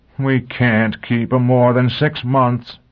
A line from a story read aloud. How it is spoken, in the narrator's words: the mayor groaned